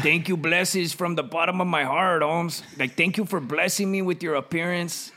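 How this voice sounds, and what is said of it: Put-on Latino accent. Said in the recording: “It's a weak Latino. ... a fucking weird accent.”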